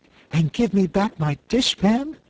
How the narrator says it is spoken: added the Cookie Cook eagerly

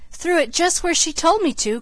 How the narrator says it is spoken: cried Billy

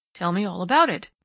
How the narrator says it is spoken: Dundee urged gently

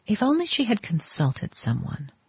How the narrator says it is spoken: van der Luyden murmured

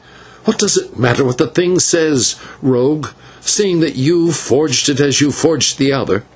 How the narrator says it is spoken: the señor turned to him and said fiercely

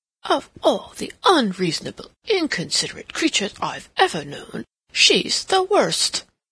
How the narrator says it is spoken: he exclaimed to himself

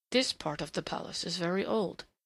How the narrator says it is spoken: he murmured over his shoulder

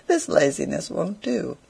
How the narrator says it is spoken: says he merrily

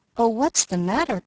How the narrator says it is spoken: cried Daisy anxiously

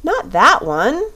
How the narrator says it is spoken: she cried

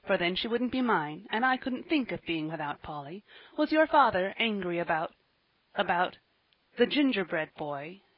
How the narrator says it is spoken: he asked timidly, trembling for an answer

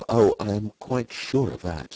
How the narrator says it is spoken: she murmured in a fervent voice

